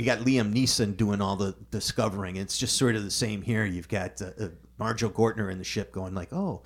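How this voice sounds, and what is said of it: Usual voice. Nothing is said of it.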